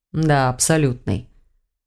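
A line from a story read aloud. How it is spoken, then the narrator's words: Calm man repeating. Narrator (Russian): спокойно повторил мужчина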